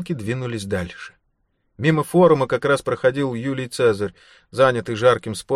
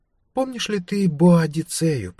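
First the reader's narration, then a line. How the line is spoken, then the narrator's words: Purring. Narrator (Russian): промурлыкала Лейла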